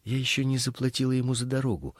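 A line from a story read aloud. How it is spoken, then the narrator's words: Frightened. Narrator (Russian): испуганно сказала она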